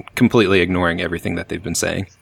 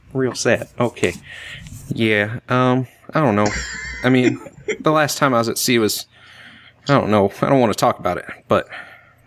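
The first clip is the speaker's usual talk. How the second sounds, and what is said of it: Weaselly Southern drawl. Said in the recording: “It's Southern accent, right? ... Yeah, it's a really wormy. ... Weaselly Southern drawl.”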